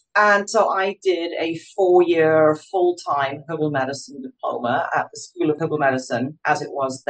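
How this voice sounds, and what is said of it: Scottish British accent. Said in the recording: “You can obviously hear from my accent, I'm originally British, Scotland.”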